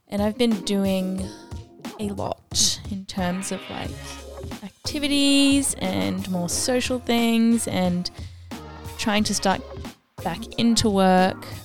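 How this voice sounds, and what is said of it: Sick-sounding voice. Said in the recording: “I woke up a bit sick, so also sorry if my voice is a bit...”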